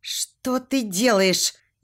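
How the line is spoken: Frightened question. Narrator (Russian): испуганно спрашиваю

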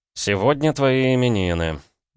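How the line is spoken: Grumble. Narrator (Russian): проворчал

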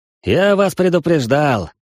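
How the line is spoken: Wry grunt. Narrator (Russian): хмыкнул начальник охраны

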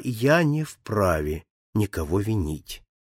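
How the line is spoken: Very calm tone. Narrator (Russian): отвечал Филиас Фок самым спокойным тоном

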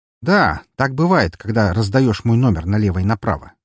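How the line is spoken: Snorting, matching his tone. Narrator (Russian): хмыкнул я в тон его голосу

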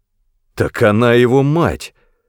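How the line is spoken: Exclaimed involuntarily. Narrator (Russian): непроизвольно воскликнул я

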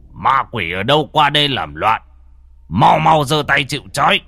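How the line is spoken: Old man shouting. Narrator (Vietnamese): lão thầy quát

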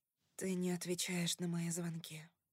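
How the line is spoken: Mutter. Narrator (Russian): пробормотала я

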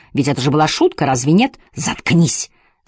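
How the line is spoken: Angry growl. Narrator (Russian): зарычал на меня Клэр

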